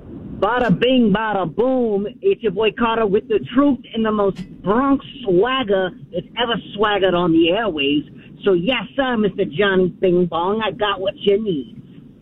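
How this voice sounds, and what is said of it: Put-on Bronx accent. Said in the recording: “I need, like, a Bronx attitude. I need a Bronx voice. I want a Bronx accent.”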